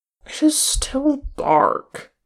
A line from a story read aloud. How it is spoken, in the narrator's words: Gimli grumbled